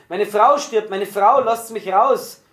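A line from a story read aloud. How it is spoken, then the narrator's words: Terrible frantic screaming. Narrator (German): brüllte furchtbar auf, schrie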